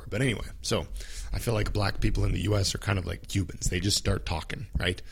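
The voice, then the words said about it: Sore, strained throat voice. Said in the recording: “my throat is so sore”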